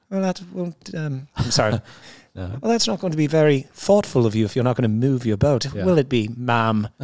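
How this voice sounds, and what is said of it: Put-on English accent. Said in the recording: “there's nothing better than an English accent. I love an English accent.”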